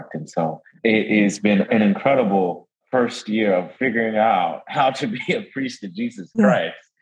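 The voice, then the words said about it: New Orleans drawl accent. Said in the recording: “You've got the New Orleans drawl, which I love... So I love hearing that New Orleans accent.”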